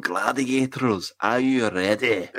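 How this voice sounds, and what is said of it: Bad put-on Scottish accent. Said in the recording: “a diminutive Scottish going ... That was the worst Scottish accent.”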